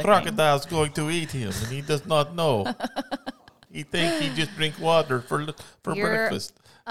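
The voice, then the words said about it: Put-on Russian accent. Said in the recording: “That's Russian, wasn't it? That actually was my best Russian I think I've ever done. ... That's probably your best Russian you've ever done.”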